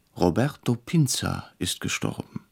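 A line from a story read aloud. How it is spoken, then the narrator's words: Quiet, startled. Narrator (German): sagte leise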